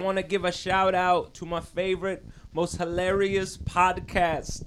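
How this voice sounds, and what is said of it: Imitates another person's voice. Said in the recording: “my Alicia Keys impression just bombed horribly”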